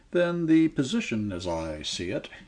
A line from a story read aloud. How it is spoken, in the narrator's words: he said in a low, toneless voice